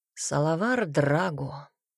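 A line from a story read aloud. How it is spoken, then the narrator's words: Quiet, distant. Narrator (Russian): ответил негромко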